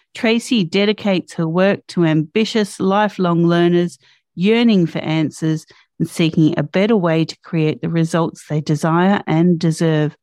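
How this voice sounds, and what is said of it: Australian accent. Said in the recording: “Your accent is absolutely beautiful. ... as an Aussie, I don't hear it anymore ... it is stunning”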